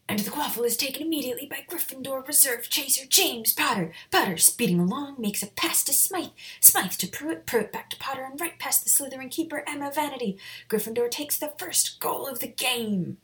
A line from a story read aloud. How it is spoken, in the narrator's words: the announcer shouted